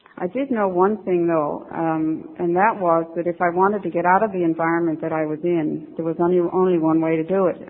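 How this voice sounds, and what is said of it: Newfoundland accent. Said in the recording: “I don't know if you can hear this in my accent, but I'm a Newfie.”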